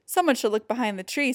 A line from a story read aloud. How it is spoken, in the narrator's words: said Norman